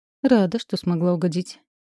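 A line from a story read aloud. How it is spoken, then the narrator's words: Sarcastic. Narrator (Russian): язвительно скривилась я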